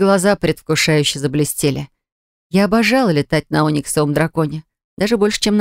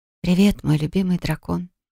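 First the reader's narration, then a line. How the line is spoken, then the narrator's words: Whispered. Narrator (Russian): прошептала я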